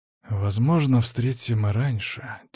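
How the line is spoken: Quiet. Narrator (Russian): тихо произнес я

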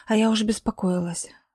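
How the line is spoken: Tired voice. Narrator (Russian): сказала она усталым голосом

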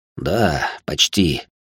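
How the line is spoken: Heavy sigh. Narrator (Russian): тяжело вздохнул он

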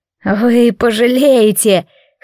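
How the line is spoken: Hoarse, through gritted teeth. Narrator (Russian): хрипло процедил он

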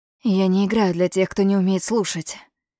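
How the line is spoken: Faint breathed whisper. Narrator (Russian): выдохнул Ниль тише собственного дыхания

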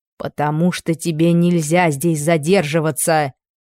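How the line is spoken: Menacing. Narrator (Russian): грозно отвечала она

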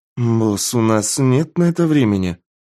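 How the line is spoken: Grumbling. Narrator (Russian): проворчала светловолосая девушка

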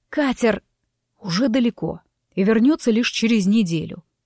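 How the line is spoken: Irritated, through clenched teeth. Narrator (Russian): раздраженно процедил оборотень

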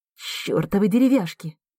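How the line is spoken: Barely restrained hiss. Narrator (Russian): зашипела Тома, едва сдерживаясь

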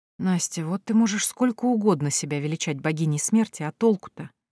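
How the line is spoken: Muttered under breath. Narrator (Russian): себе под нос пробормотала Морриган

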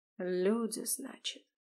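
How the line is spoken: Muttered. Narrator (Russian): пробормотал Арт

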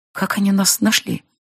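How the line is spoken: Whisper. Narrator (Russian): прошептала Рейна

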